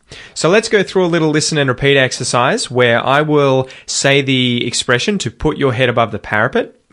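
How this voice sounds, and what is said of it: Australian accent. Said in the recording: “If you want to get an Australian accent, obviously really pay attention to my pronunciation.”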